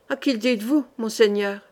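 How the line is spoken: Sighed. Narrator (French): soupira Tozan

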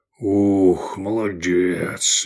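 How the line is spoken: Breathless exhale. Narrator (Russian): выдохнул Гаар

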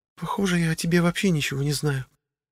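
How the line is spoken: Said quietly. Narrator (Russian): негромко произнесла Анна

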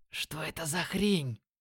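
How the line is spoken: Shocked whisper. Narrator (Russian): Прошептал он, не скрывая шока

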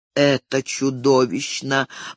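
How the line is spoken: Moaning. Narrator (Russian): простонал мсье Бриссо

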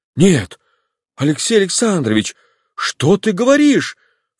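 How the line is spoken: Anguished cry. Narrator (Russian): вскрикнул Облонский, и страдание выразилось на его лице

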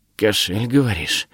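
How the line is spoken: Whisper. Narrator (Russian): шепнул он

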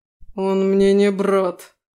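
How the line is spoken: Growled. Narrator (Russian): рыкнула Аласдер

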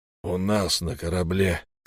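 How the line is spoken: Hoarse correction. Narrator (Russian): хрипло поправил его капитан

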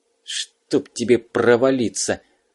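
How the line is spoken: Cursing through gritted teeth. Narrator (Russian): сквозь зубы выругался Егоров

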